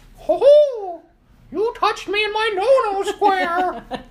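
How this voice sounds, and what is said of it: Imitation of Mickey Mouse voice. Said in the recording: “I don't think your Mickey one is as good as you think it is ... I always enjoy ... accents.”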